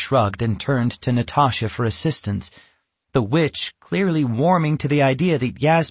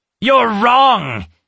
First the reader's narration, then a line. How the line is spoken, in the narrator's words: Natasha exclaimed